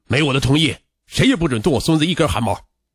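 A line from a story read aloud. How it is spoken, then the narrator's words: Furious. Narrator (Chinese): 丁宋涛暴怒道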